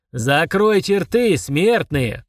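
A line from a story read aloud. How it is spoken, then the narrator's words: Furious roar. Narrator (Russian): проревел взбешенный Фурундорог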